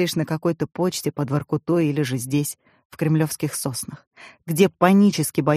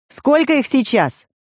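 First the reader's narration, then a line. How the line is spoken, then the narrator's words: General shouting into radio. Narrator (Russian): орал в рацию генерал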